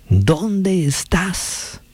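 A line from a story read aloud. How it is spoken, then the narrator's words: Shouting again. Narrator (Spanish): gritó otra vez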